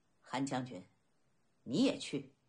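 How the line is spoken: Faint smile. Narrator (Chinese): 乐毅淡淡一笑

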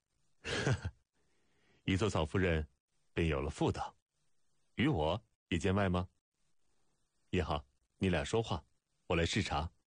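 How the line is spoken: Laughing. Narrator (Chinese): 孟尝君笑道

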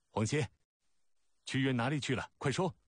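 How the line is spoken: Loud demanding question. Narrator (Chinese): 楚怀王高声问道

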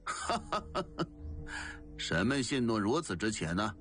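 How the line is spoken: Loud laughter. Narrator (Chinese): 陶令大笑道

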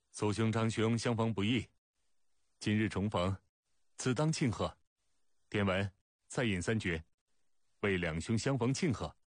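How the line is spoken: Laughing. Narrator (Chinese): 孟尝君笑道

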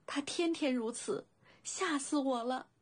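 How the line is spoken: Choked, sobbing. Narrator (Chinese): 小灵狐哽咽道

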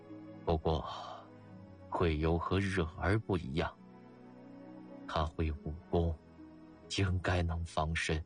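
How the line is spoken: Sighing. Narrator (Chinese): 他叹息了一声道

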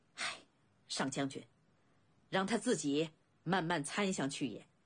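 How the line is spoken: Displeased sigh. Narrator (Chinese): 公子昂满脸不悦，叹息一声

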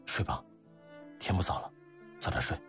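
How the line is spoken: Whispered. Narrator (Chinese): 悄声说

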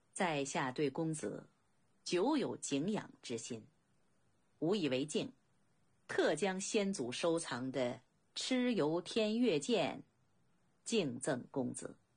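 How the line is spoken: Calm, faint smile. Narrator (Chinese): 客人却平静的一如止水，淡淡的微笑道

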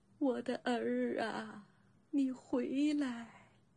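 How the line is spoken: Old woman sobbing. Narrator (Chinese): 一个老妇人呜呜咽咽地哭了起来

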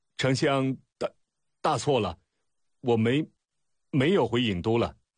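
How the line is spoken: Stammering. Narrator (Chinese): 楚使结结巴巴道

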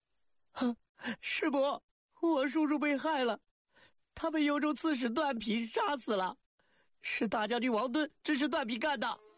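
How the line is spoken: Crying loudly. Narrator (Chinese): 刘坤的侄儿大哭道

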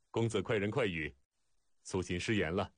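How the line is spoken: Hearty laughter. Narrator (Chinese): 苏秦哈哈大笑

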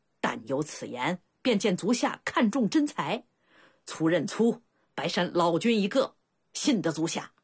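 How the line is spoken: Bright, cheerful laugh. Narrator (Chinese): 白山却明朗笑道

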